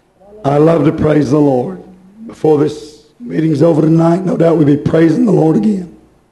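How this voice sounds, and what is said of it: Hoarse voice. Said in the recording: “that's why I'm hoarse tonight”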